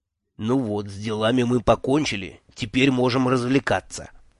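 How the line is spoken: Snide whisper. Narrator (Russian): ехидно шепнул мне Джуффин

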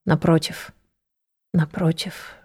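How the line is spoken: Whisper. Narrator (Russian): шептала

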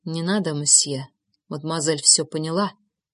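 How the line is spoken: Quiet whisper. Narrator (Russian): тихо прошептал Жозеф

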